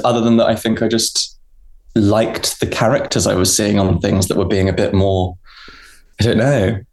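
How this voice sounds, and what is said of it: Posh-ish English accent. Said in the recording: “a posh-ish voice”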